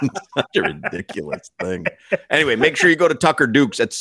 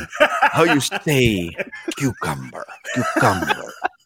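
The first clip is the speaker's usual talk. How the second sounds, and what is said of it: Impression of Hilaria Baldwin. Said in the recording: “My new impersonation, Hilaria Baldwin.”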